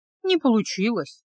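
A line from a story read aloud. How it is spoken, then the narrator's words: Sad. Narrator (Russian): грустно подтвердила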